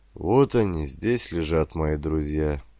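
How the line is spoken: Quiet. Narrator (Russian): тихо сказал Дмитрий Сергеевич

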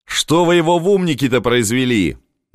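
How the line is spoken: Shout. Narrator (Russian): закричал

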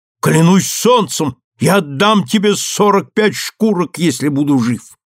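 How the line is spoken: Composed exclamation. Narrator (Russian): овладел собой, воскликнул

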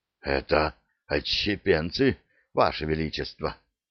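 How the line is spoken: Hoarse, breathy. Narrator (Russian): хрипло выдохнул Геральт

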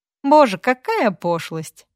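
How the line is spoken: Light laugh. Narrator (Russian): легко рассмеялась София

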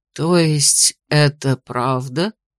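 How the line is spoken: Breathed out. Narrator (Russian): выдохнул Мартингерский

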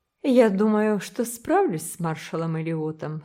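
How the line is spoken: Calm statement. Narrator (Russian): спокойно заявила мисс Корнелия

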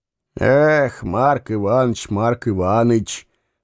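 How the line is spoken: Sigh. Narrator (Russian): вздохнул становой

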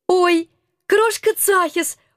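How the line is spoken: Delighted squeal. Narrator (Russian): восторженно взвизгнула я

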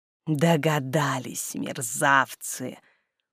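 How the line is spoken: Hiss. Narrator (Russian): Прошипел отнимающий

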